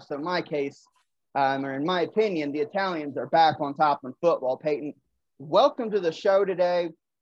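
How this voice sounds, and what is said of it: Excited voice. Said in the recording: “you can tell in my voice, I'm a little excited”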